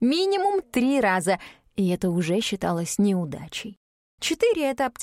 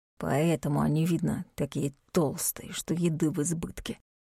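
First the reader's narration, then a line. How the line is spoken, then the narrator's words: Hissed. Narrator (Russian): прошипел Дарк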